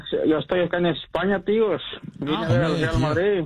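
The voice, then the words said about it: Spanish-from-Spain accent. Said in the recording (Spanish): “ya esto se te ha pegado el acento”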